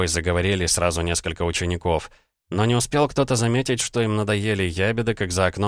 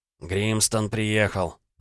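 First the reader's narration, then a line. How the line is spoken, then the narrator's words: Whispering. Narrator (Russian): зашептали они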